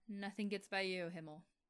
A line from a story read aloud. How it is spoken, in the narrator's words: Reiner chuckled without humor